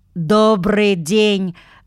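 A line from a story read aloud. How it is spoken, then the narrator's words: Thin ringing little voice. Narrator (Russian): сказал он тонким звонким голоском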